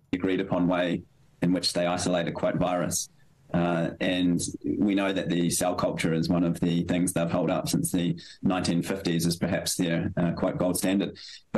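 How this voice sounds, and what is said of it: Speaks with a noticeable accent. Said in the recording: “His accent is so irritating ... just for having such a fucking irritating accent.”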